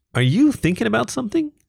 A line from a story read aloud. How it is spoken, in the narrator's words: cooed in that soft but lively voice